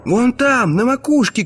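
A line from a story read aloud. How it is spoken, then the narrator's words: Shout. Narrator (Russian): крикнул Изон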